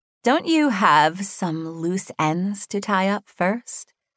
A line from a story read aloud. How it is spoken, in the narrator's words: Hannah asked, her voice sickeningly sweet